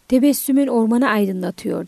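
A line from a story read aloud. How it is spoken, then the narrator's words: Plain. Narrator (Turkish): dedi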